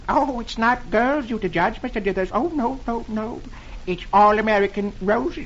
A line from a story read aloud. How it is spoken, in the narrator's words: the man says timidly